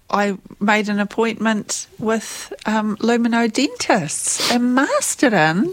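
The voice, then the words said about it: Playful put-on accent. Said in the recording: “I like the accent you were giving us... You were giving us the accent”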